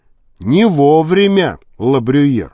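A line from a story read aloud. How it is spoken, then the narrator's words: Plain. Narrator (Russian): сказал он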